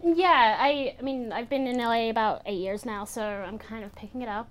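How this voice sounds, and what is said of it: Toned-down New Zealand accent, somewhat American. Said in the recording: “how New Zealandish your accent was going to be. But it's a little toned down ... You sound American.”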